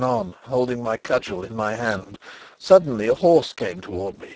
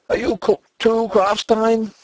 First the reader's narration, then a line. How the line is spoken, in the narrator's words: he cried